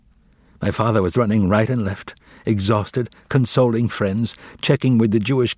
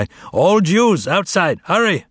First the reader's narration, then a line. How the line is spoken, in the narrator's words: Hungarian police were yelling in the street nearby